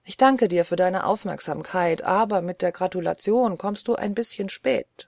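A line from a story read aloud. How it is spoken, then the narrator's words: Plain. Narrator (German): sagte Strickland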